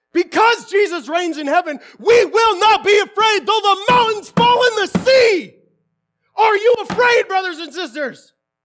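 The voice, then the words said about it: Yelling loudly. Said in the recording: “I'm yelling quite loud.”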